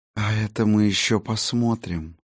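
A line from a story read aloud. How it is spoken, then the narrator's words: Purring. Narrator (Russian): промурлыкала Сигарлин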